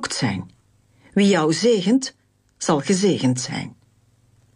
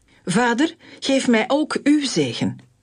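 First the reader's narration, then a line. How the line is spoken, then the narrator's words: Loud bitter pleading wail. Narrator (Dutch): brak hij in luide en bittere jammerklachten uit en smeekte zijn vader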